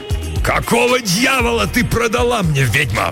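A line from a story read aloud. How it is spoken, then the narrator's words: Roaring. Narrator (Russian): взревел он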